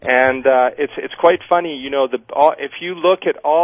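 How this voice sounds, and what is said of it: Usual voice. Nothing is said of it.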